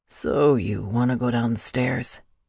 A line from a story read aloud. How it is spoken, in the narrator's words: He asked in a low voice